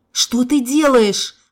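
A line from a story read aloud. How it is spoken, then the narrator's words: Howling. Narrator (Russian): взвыл Игорь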